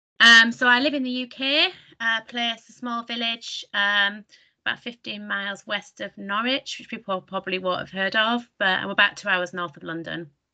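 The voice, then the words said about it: Strong northern English accent. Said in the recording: “I've got a strong northern accent.”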